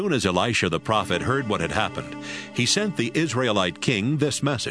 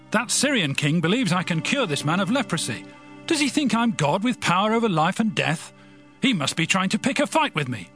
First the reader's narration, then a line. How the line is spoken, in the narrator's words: he tore his clothes in fear and shouted